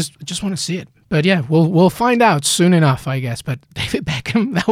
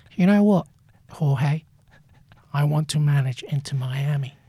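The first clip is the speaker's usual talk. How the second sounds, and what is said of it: David Beckham impression. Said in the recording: “That was actually pretty good. ... Your impression. ... talking in that voice”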